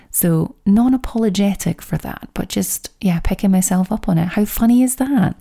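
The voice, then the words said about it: Scottish accent. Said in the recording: “it might just be my Scottish accent”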